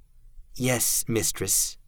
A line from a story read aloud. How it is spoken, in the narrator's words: the Tallowman said, his voice meek